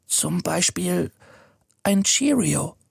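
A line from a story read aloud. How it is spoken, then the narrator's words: Whispered. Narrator (German): flüstert er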